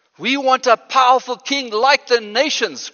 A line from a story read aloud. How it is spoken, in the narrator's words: cried out Israel